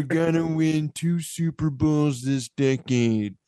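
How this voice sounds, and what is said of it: Nasal imitation of another person's voice. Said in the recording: “My Jim Ursa impression ... You just get really nasally.”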